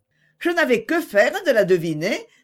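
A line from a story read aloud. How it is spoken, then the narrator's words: Laughing reply. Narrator (French): répondit Agnès en riant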